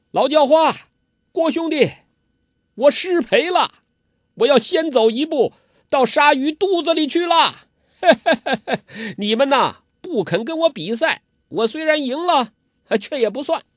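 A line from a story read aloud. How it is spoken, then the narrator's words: Laughing shout. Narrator (Chinese): 他大笑着叫道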